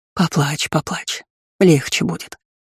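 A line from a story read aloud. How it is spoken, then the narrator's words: Soft soothing woman. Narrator (Russian): мягко приговаривала женщина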